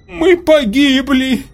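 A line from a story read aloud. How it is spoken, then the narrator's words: Moaning. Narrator (Russian): простонала Цилизаван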